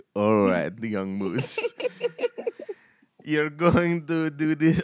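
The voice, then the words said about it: Weak attempt at Russian accent. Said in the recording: “I can't do a Russian accent”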